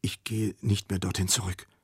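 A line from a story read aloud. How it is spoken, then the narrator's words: Whispering. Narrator (German): flüsterte Flämmchen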